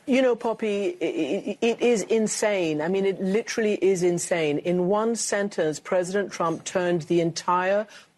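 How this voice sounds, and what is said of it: Affected, fancy-sounding accent. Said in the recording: “still speaks with this really affected, fancy, fancy accent.”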